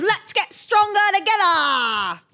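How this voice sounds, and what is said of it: Put-on Australian accent. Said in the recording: “The Australian accent”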